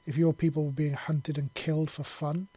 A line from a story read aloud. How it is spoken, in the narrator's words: he said bitterly